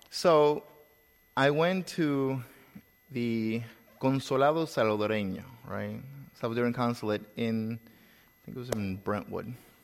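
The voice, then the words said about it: Foreign accent, Salvadoran Spanish speaker. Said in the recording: “I wasn't born in this country, if you haven't been able to tell with my accent already”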